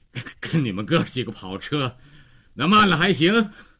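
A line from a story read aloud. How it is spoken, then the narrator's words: Panting, breathless. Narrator (Chinese): 高个子喘着气儿回答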